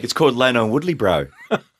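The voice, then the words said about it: Mixed New Zealand and Cockney accent. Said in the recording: “Was that a New Zealand accent? ... Yeah, kind of. ... That was great. ... It was kind of New Zealand / Cockney.”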